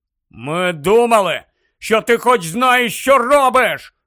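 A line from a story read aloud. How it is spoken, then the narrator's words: Shouting back. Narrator (Ukrainian): закричав у відповідь Рон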